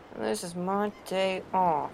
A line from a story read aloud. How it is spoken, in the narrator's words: McCoy mutters under his breath